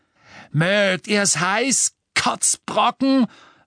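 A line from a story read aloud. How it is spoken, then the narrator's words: Roaring while running. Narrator (German): brüllte Crabbe, während er rannte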